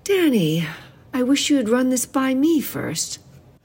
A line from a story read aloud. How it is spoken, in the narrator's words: Her tone was gentle, and she kept it that way ... said